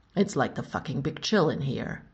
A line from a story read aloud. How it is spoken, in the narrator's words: Tony grumbled